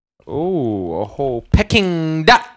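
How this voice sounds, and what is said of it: Put-on Asian accent. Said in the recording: “As soon as I said Peking duck, I just started using the accent... It just feels like a slightly racist impression... I'm at an Asian spot”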